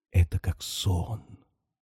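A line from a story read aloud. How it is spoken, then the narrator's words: Inspired passionate whisper. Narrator (Russian): шепнул вдохновенно и страстно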